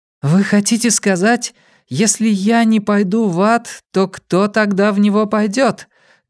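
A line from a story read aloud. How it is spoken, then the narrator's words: Loud. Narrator (Russian): громко произнесла Дунфан Яньсюй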